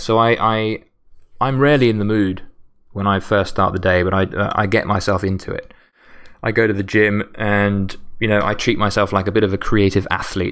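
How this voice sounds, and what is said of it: Tired, strained voice going hoarse. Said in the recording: “I'm so knackered now and I'm losing my voice already”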